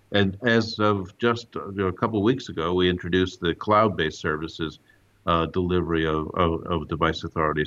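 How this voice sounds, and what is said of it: Slight American accent. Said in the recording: “from your accent, you have a slightly American heritage”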